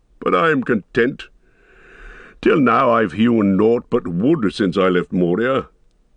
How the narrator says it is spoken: laughed the dwarf

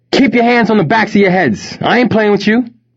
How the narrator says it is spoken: yelled one of the armed robbers

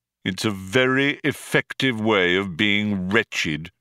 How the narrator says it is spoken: said Marvin

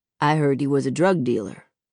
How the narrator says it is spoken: says Uncle Carlos

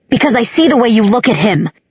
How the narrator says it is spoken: he shouted

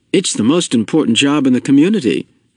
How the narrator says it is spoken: father said

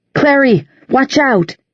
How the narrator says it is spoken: she heard Simon shout

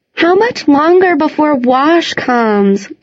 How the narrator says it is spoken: Gotti whined

